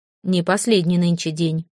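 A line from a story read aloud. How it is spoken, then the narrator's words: Stern old woman reminding. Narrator (Russian): строго напомнила толкун-баба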